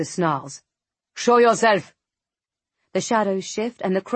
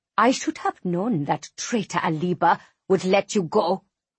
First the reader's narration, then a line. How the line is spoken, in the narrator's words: she hisses